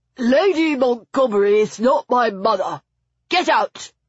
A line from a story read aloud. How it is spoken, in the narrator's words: he grumbled